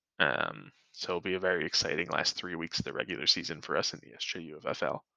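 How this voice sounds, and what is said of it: Flat monotone voice. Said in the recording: “Please excuse my monotone voice right now.”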